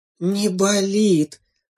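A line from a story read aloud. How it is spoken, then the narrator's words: Relieved sigh. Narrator (Russian): облегченно вздохнула мама-зайчиха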